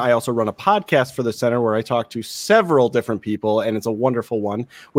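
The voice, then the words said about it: Slight Wisconsin accent. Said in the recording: “I thought you had a little bit of a Wisconsin accent in there.”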